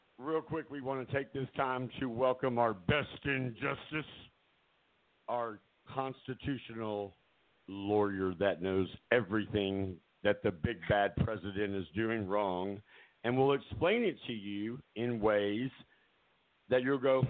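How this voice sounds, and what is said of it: Strained, unwell-sounding voice. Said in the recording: “as you can hear, my voice is not doing much better”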